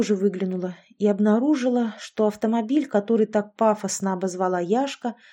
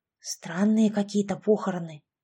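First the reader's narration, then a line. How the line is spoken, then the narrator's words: Whisper. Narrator (Russian): прошептала я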